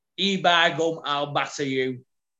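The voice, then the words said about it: Imitates a Wigan accent. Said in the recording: “is my best Lucy Sky impression. ... Lucy Sky is Wigan's own.”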